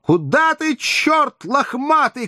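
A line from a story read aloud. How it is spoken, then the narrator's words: Desperate shout. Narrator (Russian): кричала отчаянно Зина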